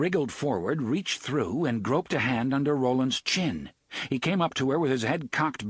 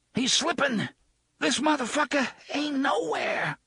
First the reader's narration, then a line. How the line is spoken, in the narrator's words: Susanna gasped